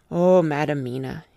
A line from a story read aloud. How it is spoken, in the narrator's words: said sadly